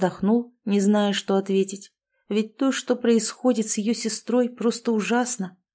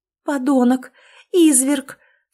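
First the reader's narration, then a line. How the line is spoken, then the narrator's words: Angry shout. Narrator (Russian): в сердцах закричала Лаура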